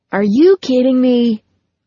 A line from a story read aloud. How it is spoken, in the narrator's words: RJ yelled at the screen